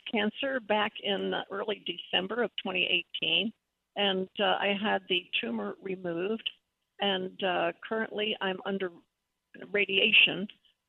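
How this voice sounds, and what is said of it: Froggy, weak voice. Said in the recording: “my voice sounds a little froggy, a little weak. Well, it is, I guess, after so much radiation.”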